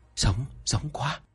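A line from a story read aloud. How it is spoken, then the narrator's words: Workers whispering. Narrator (Vietnamese): mấy người công nhân thì thầm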